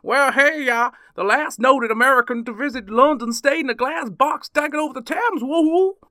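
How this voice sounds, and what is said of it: Put-on Texan accent. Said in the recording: “he's a Texan, so ... Another piece of stellar accent work”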